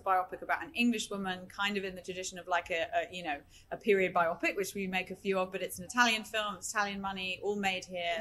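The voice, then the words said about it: RP British accent. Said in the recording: “my overbearing RP British accent cuts through the gorgeous Italian”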